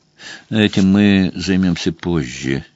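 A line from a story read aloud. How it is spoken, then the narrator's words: Quiet. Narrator (Russian): тихо сказал Лоуман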